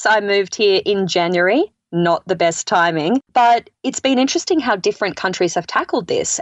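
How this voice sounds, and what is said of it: Non-American accent. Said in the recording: “you can hear from my accent that I'm not from the States”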